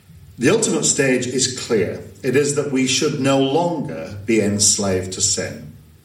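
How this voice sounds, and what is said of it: Northern English accent. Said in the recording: “I'm far too northern for that.”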